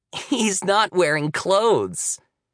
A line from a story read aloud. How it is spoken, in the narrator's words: Abby said with another giggle